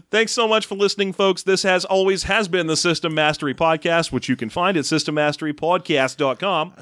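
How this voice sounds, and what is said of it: Fake Boston accent. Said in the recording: “You're slipping into your original accent there ... My made up faux Boston accent because I can't do real accents”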